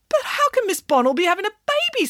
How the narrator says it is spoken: spluttered the vice principal

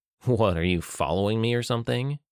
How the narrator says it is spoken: David scoffed

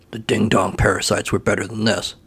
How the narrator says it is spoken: he muttered

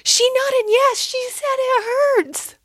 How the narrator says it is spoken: From the way, way back, shouted

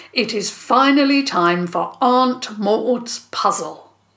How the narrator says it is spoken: Dad spoke loudly, as though making a grand announcement

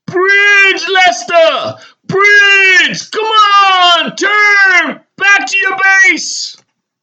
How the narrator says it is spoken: Vale is screaming

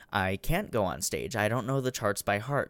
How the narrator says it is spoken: Tanner says

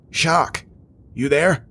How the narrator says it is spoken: Jonah said, his voice threatening to break into a coughing fit once more

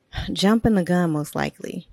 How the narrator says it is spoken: Addie said with an exasperated sigh

